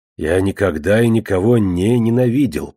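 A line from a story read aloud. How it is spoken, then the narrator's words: Growl. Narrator (Russian): прорычал он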